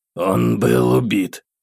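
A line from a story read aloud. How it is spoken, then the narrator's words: Restrained emotional exhale. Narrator (Russian): Старательно сдерживая эмоции, выдохнул Виггава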